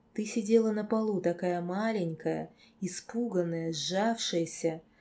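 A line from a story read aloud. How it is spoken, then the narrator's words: Whisper. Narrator (Russian): прошептал лорд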